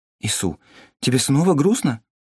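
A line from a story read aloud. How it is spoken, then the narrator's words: Frightened. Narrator (Russian): испуганно переспросила Томми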